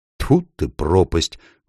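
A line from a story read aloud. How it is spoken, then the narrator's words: Exclaiming. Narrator (Russian): воскликнул Эдмунд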